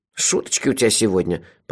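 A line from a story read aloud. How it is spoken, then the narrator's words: Grumbling. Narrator (Russian): проворчал Мелифара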